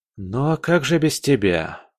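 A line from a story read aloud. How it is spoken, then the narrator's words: Sighing. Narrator (Russian): вздохнул Олег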